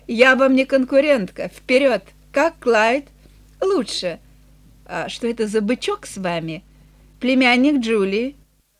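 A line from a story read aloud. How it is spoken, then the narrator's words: Laughing. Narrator (Russian): Эленор рассмеялась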